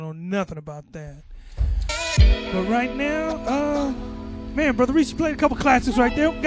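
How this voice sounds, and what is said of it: Usual voice. Nothing is said of it.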